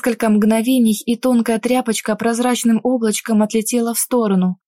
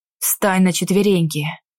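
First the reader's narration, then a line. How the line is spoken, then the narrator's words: Hoarse, forced out. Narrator (Russian): Сипло вытолкнул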